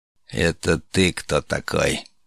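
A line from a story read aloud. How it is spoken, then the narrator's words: Menacing question. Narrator (Russian): грозно нависая над медианином, осведомился Перс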